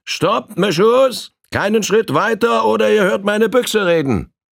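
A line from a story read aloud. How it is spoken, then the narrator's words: Called out to them. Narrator (German): rief Bill ihnen zu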